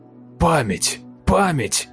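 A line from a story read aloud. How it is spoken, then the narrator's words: Near yelling. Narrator (Russian): Сиплый почти орал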